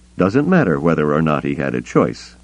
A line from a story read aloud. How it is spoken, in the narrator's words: Luke said firmly